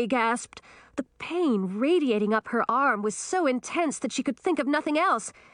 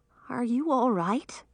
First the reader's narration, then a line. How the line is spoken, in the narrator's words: he asked, his voice heavy with concern